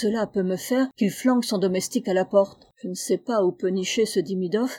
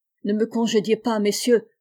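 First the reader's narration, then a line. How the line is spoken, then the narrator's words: Pleading. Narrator (French): implora-t-il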